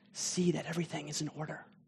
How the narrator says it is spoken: he whispers

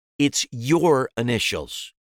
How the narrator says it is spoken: said sharply, cutting me off

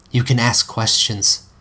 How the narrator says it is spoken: Delphi said softly

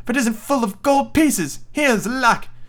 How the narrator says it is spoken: she cried, fair amazed

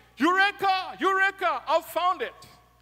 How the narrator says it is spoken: shouting

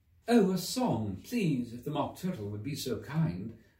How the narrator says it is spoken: Alice replied, so eagerly

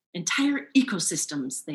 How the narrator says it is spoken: they gasp

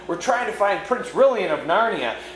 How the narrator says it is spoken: Jill blurted out

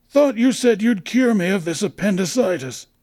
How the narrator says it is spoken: he wheezed antagonistically

